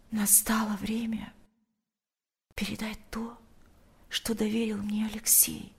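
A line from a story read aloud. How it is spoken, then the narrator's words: Whisper in ear. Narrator (Russian): прошептала она ему на ухо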